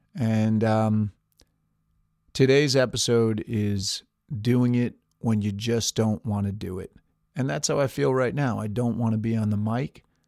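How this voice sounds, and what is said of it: Low-energy, tired-sounding voice. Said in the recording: “my voice is a little lacking in energy”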